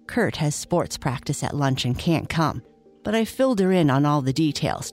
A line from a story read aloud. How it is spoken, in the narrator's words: Charlie said